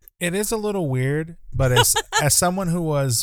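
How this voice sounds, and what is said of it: Usual voice. Nothing is said of it.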